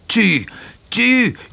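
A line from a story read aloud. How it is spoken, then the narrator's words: Crowd yelling from everywhere. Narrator (French): hurla-t-on de tous côtés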